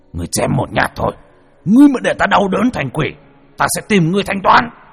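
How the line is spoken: Roaring. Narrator (Vietnamese): Lê Biệt đang quỳ lại gầm lên một tiếng

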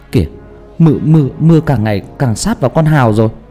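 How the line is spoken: Trembling voice. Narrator (Vietnamese): một người run rẩy

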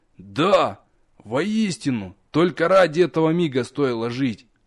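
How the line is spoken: Relieved exhale. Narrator (Russian): Я облегченно выдохнул

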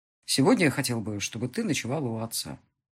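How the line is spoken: Quiet call. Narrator (Russian): позвал негромко Марат

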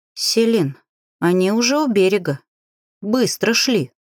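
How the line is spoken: Sorrowful sigh. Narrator (Russian): горестно вздохнул

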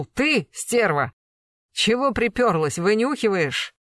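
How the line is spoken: Barked. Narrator (Russian): он вдруг рявкнул

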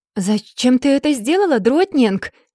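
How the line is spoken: Astonished exclamation. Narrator (Russian): изумленно воскликнул он

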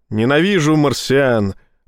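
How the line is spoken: Admiral barking. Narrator (Russian): рявкнул адмирал

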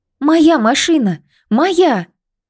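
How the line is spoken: Loud cry. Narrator (Russian): громко вскрикнула Лида

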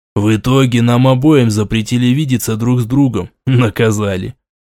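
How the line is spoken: Grim smirking tone. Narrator (Russian): мрачно ухмыльнулся он

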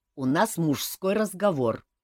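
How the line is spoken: Angry explanation. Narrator (Russian): зло пояснил Шилар

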